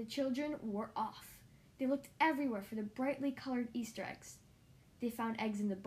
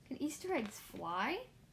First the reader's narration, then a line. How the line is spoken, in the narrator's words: laughed